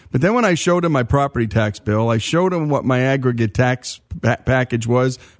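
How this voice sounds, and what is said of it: New Jersey accent. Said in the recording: “as you can tell from this accent. I'm a New Jersey boy”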